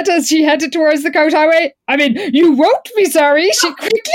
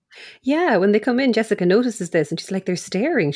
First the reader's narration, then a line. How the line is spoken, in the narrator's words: she says quietly to Lila